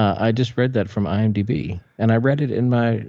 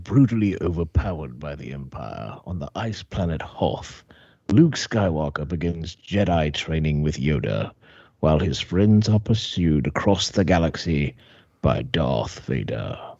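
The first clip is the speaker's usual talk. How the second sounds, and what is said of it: Put-on British villain voice. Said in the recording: “I read it in my British voice. ... Star Wars bad guy voice.”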